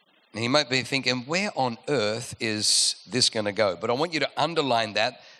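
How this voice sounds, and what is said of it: Usual voice. Nothing is said of it.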